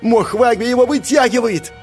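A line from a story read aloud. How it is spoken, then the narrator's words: Shouting. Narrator (Russian): закричал Джувон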